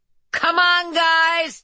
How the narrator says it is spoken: he shouted

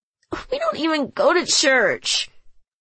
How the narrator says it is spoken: she moaned

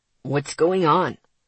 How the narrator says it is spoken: Ryan asked, his voice worried

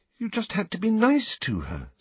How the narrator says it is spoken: said Hermione, looking up anxiously

